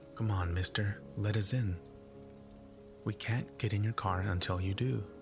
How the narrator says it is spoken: the spokesman said soothingly

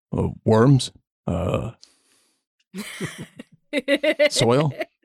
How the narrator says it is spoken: Second one, in a much deeper voice

